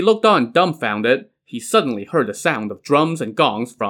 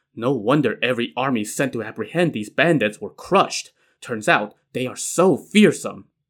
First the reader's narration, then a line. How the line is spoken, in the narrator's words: Tong Guan was scared out of his mind, and he could not help but mutter